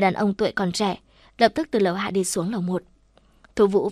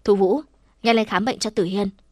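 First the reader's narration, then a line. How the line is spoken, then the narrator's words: Loud female voice. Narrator (Vietnamese): Cô ... lớn tiếng mở miệng nói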